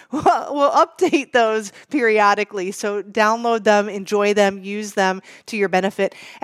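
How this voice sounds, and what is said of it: Strained, failing hoarse voice. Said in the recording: “I can't talk now. ... I'm losing my voice.”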